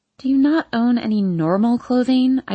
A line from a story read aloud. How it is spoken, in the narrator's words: I groan